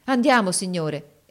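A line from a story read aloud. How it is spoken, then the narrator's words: Excited exclamation. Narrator (Italian): esclamò con trasporto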